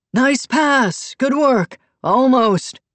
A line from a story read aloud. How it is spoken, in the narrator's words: shouting